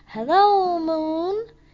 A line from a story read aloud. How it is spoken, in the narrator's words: he shouted